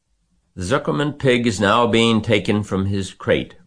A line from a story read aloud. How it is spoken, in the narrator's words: boomed the voice of the loudspeaker